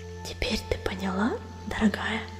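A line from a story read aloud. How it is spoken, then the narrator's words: Whispering. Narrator (Russian): прошептала Пестролистая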